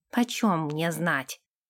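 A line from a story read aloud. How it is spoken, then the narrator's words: Grumbling. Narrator (Russian): буркнул он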